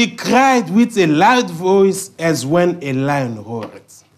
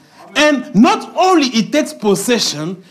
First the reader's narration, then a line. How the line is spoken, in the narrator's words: he roars